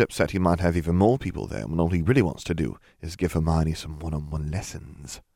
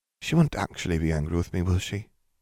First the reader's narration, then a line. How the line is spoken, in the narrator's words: Katie whispered